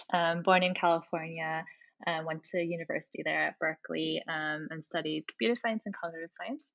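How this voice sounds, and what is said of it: American accent. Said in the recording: “I'm American. You can tell from my accent.”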